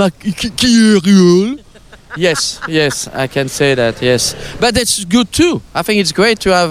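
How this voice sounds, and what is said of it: Usual voice. Nothing is said of it.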